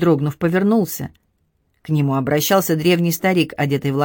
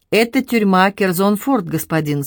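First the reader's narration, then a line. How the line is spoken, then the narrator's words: Plain. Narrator (Russian): спросил Сет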